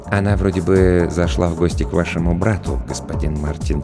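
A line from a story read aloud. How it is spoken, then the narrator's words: Quiet reply. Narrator (Russian): тихо ответил Роджер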